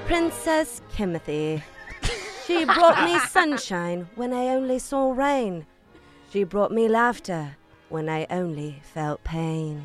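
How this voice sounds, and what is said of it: Put-on British accent. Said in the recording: “Can you do it in a British accent”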